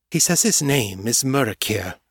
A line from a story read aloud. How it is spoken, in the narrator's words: Morgan said, her voice dark with suspicion